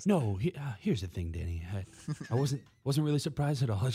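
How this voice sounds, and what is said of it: Impression of Hub Arkish. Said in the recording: “I don't have a good Hub ... Oh, you were doing great.”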